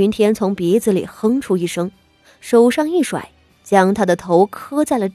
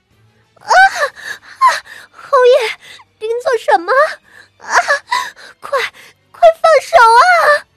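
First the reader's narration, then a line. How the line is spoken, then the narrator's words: Pained screaming sobs. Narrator (Chinese): 傅妙仪疼的头皮都快掉了一般，惨叫着哭道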